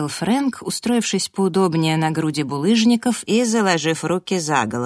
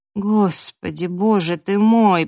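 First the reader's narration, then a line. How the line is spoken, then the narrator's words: Moaning. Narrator (Russian): простонала я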